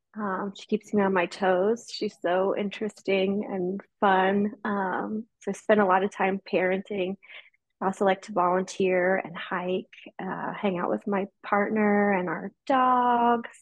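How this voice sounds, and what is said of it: American accent. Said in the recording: “you are in America, if people can't tell ... by the accent”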